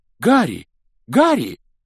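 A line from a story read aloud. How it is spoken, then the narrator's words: Loud call. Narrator (Russian): громко позвал чей-то голос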